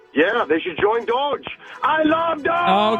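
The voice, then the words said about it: Yelling caller. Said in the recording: “Stop yelling!”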